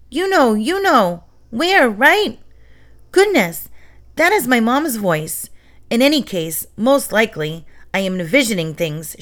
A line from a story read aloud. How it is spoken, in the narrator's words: shouted Yuno